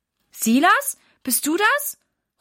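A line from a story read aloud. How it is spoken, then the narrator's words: Calling out. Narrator (German): ruft Mama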